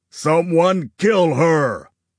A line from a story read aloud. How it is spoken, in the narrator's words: Augustus yelled